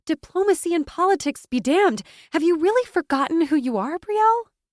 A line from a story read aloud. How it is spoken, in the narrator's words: she asked, her voice gaining momentum with each syllable